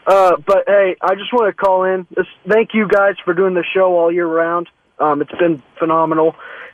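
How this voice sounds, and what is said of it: Hoarse, mostly lost voice. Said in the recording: “sorry about the voice ... I got no voice”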